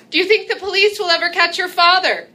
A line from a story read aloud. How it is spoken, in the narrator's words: my partner, and partner in sin, I'll admit, might shout to me with a twinkle in her eye